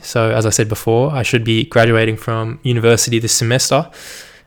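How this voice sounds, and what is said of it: General Australian accent. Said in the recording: “just like the majority of Australians, just kind of a normal accent ... general is like my accent, which is kind of just normal”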